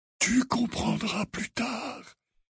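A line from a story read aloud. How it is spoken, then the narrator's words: Murmured. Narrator (French): murmura Dumbledore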